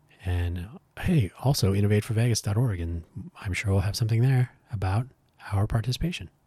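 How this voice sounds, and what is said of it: Strained, worn-out voice. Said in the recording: “My voice is giving up on us”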